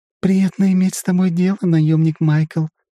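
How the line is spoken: Purring. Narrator (Russian): промурлыкала лисичка

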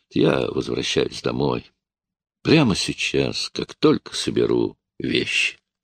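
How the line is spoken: Tired. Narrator (Russian): устало произнес

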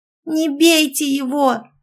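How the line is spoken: Shout. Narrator (Russian): закричала Малинка

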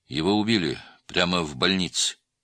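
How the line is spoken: Grim confirmation. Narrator (Russian): мрачно подтвердил Адалят

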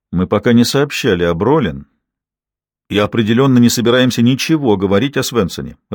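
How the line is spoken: Loud, irritated. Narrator (Russian): раздраженным тоном громко произнес детектив

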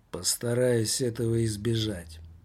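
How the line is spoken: Gloomy. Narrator (Russian): мрачно проговорил Томмазо Кампанелло

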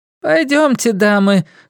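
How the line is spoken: Exclamation. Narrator (Russian): воскликнула сестра Мэри

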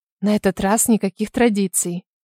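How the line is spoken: Whisper in ear. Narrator (Russian): прошептала я в ухо Хамфри

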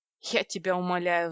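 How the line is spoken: Sigh. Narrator (Russian): вздохнула я

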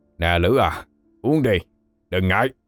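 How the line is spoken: Gruff male voices. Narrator (Vietnamese): Vài gã giọng ồm ồm

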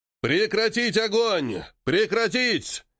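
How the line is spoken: Commanders shouting. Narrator (Russian): кричали командиры

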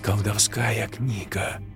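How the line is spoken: Whispered. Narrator (Russian): прошептала она

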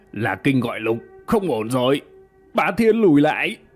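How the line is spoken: Sudden loud shout. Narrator (Vietnamese): bỗng dưng hắn ta hét lớn

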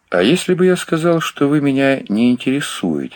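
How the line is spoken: Plain. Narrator (Russian): спросил Мэтлок

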